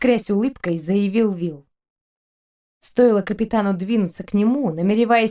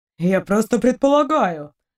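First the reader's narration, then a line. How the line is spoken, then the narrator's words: Offended. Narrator (Russian): обиженно скривился Эдериец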